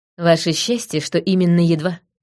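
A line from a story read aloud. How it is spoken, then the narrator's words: Snorting. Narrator (Russian): фыркнула я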